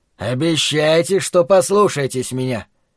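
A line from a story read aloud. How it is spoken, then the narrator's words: Stern. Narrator (Russian): Он строго сказал нам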